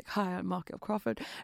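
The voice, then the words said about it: Poor Michael Crawford impression. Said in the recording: “that's horrible accent, sorry.”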